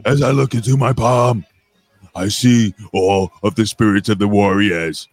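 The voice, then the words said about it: Imitates another person's voice. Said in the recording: “my impression of the Ultimate Warrior ... That's the ultimate warrior impression.”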